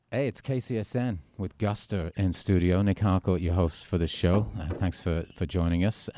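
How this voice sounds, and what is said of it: British-Australian transatlantic accent. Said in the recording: “Everything sounds better with a British accent. ... your British accent ... It's not really British anymore. It's kind of like a transatlantic sort of Australian thing.”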